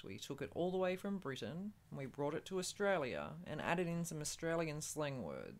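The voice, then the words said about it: Cultivated Australian accent, British-sounding. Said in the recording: “the cultivated ... Which would be my accent. ... More of a proper English, British sounding.”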